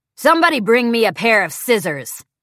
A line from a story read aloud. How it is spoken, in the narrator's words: bellows Mustache Man